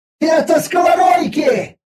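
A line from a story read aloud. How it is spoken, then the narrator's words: Sudden yell. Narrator (Russian): заорала вдруг Виза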